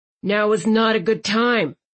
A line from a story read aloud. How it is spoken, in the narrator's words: Landon growled